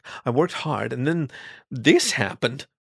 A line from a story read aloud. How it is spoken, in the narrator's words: the hare exclaimed